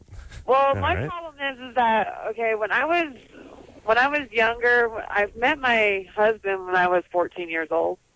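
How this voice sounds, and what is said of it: Voice sounds older than her age. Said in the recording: “You sound like an old soul ... Well, actually, I sound older than what I really am.”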